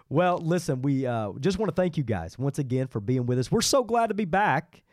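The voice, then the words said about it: Sick-sounding voice. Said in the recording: “I'm still have some stuff lingering. You could probably hear it in my voice.”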